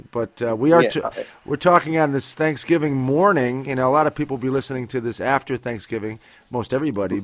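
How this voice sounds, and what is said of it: Congested, sore-throated voice. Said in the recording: “I have a bit of a cold, ... My throat is killing me.”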